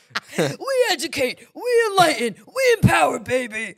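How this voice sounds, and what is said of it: Imitates another person's voice. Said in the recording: “The Hulk Hogan impersonation.”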